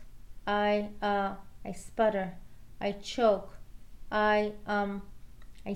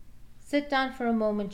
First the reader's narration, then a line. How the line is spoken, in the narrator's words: she says